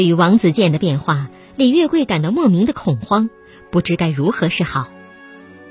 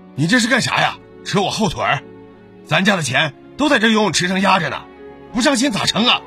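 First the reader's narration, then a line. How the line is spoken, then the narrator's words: Angry shout. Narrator (Chinese): 如果他追问，王子健就对他发脾气，大吼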